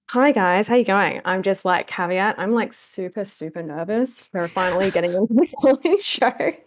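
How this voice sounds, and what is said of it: Fast-talking Australian accent. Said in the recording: “fast talking Aussie girl ... your Aussie accent ... it's so jolly.”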